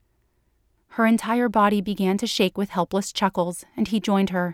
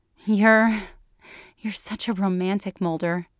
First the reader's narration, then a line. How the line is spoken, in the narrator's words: she gasped through her subsiding peals of laughter